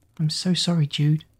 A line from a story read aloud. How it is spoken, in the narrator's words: Kira said softly